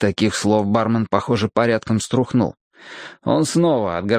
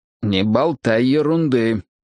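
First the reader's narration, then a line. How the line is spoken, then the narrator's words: Grumble. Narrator (Russian): проворчал я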